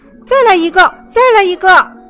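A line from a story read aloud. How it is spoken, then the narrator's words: Loud shouting. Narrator (Chinese): 查理和玛丽大声地喊道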